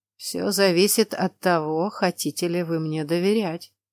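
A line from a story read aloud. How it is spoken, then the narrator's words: Slightly hoarse voice. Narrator (Russian): с легкой хрипотцой в голосе произнес он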